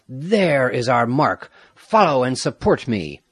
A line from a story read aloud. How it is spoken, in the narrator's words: He called to his comrades, Sandoval, Olid, Alvarado, Avila, and the other cavaliers, cried